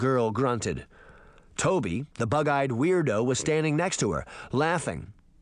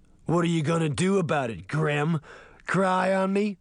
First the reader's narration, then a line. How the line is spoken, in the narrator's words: The big girl laughed